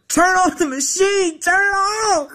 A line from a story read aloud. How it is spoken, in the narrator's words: I hollered